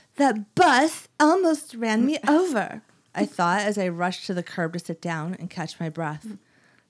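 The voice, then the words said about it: Put-on accent while reading. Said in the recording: “I'm doing a really good accent.”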